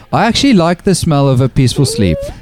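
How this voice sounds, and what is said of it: Put-on Afrikaans-style accent. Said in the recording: “Can I try it in a Wesley-esque accent ... I like Afrikaans vibe.”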